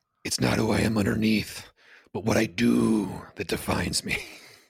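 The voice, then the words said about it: Loud Batman impression with Yoda hints. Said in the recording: “I knew you had an impression in you when you said Batman ... I fully commit to that impression ... It's rough ... I think I peaked the mic ... That had Yoda vibes in it too”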